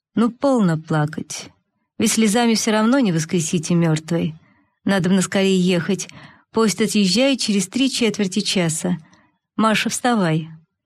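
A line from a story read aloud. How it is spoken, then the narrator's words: Unkind stern male voice. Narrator (Russian): высокий толстый господин проговорил далеко не ласковым голосом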